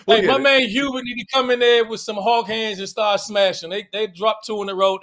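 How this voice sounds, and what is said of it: Washington D.C. accent. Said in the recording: “my D.C. accent”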